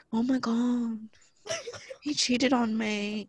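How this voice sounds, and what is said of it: Poor put-on British accent. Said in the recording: “the accents are like ... that was a horrible accent”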